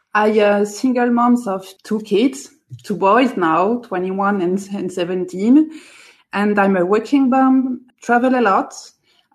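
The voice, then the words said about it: French accent. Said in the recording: “living close to Paris in France, as you can hear from my accent”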